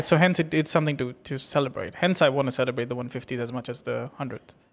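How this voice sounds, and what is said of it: British accent. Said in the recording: “your British accent smartassness”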